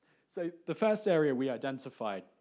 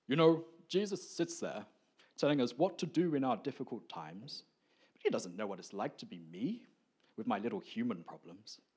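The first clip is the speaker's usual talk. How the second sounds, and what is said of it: Put-on accent, imitates a colleague. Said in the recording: “my accents are not the gift that I've got from the Spirit. But we're going to try this anyway.”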